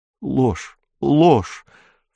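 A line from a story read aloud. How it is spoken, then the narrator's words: Sobbing mutter. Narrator (Russian): всхлипывая, бормотал Киун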